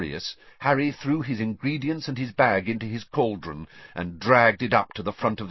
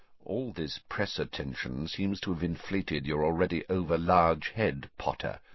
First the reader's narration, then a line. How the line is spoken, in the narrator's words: said Snape quietly